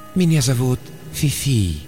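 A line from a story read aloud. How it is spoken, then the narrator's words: Purring, computer. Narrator (Russian): промурлыкал компьютер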